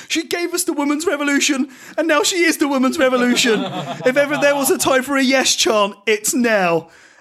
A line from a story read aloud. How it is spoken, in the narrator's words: Michael Cole tearfully yells into the microphone